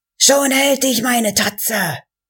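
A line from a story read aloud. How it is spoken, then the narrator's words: Shouting. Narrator (German): schrie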